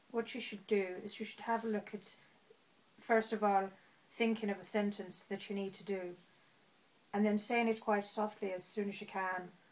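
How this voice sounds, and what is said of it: Put-on Southern Irish accent. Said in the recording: “Go on then, Southern Irish. ... That was a lot better than it has been ever before.”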